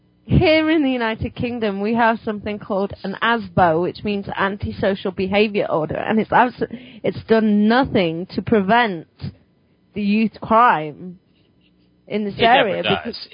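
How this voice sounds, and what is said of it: British accent. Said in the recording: “I think that people can tell that from my accent... British people here in the United States. And they keep their accents.”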